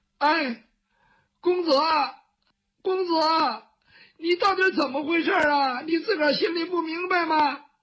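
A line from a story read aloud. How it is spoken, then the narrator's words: Crying child. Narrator (Chinese): 雨墨哭了，他毕竟是个孩子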